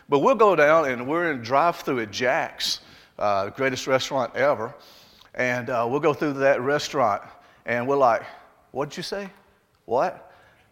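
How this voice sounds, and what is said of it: Mellowed Southern Alabama accent. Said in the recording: “Do y'all hear my accent when I'm talking? ... Ours is kind of mellowed out a little bit ... We're still Alabamians”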